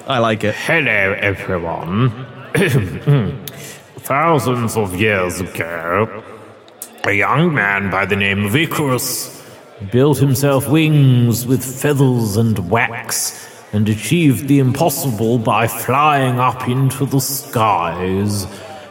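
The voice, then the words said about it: Nasal, unhinged elderly male character voice. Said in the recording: “Elderly male, slightly unhinged. ... It says nasal accent. It says nasal.”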